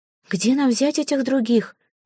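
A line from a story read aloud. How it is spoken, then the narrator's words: Desperate exclamation. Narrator (Russian): в отчаянии воскликнула Корислава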